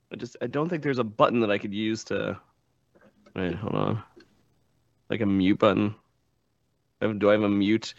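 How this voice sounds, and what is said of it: Voice sounds off, not fully recovered. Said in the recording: “I'm still recovering. My voice is still off... You sound a little verklempt.”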